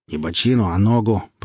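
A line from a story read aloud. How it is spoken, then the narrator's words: Growled. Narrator (Russian): прорычал тот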